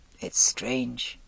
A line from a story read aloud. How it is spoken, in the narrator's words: he said at last, in a quiet, musing voice